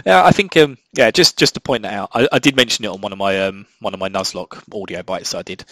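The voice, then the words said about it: Mild British Essex accent. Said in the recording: “I think it's my where I'm from in the UK, my local dialect. I'm from Essex ... I don't probably have the most typical Essex accent, but yeah, I still have the lazy tongue on occasion.”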